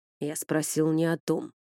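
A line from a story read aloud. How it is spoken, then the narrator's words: Growled. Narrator (Russian): рыкнул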